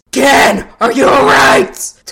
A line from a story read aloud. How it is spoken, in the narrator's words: Taiju yelled more than asked